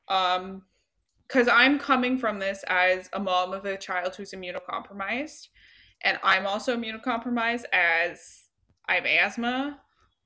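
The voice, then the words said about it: Speaking with an accent. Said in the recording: “I don't know why I'm speaking with an accent. I apologize.”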